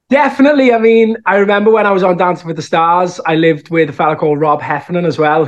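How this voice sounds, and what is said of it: Strong Scouse accent. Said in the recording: “I think the Scouse accent is so strong that it's always something that'll stick with me ... my Scouse accent”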